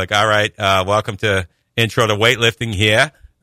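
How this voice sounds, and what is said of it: Thick New England accent. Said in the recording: “He had a thick New England accent.”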